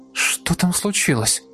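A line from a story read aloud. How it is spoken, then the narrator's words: Girl's heated whisper. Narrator (Russian): Жарко зашептала мне на ухо девушка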